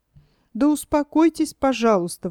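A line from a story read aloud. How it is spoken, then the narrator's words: Exclaiming. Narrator (Russian): воскликнула кума Тыквочка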